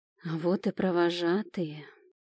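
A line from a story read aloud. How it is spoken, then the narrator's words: Quiet whisper. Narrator (Russian): тихо шепнул Рик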